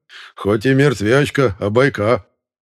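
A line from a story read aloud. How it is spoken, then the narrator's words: Deep bass chuckle. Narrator (Russian): басовито хохотнул Пантелей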